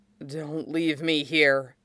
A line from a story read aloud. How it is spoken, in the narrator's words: hissed